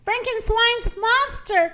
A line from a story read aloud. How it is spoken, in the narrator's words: cried the rooster